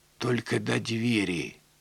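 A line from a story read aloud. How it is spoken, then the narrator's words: Whispered. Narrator (Russian): шепнула она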